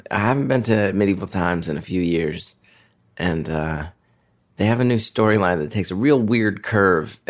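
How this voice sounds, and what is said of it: Hoarse, blown-out voice. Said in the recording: “my voice is a little blown out, because I was screaming from my marbles”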